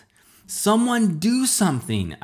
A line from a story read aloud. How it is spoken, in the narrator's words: yelled